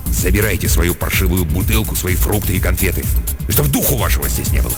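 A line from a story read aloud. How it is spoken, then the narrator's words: Angry mutter. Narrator (Russian): Никольский что-то зло пробормотал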